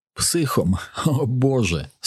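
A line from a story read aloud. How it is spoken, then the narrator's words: Feigned laugh. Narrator (Ukrainian): Снаут удавано засміявся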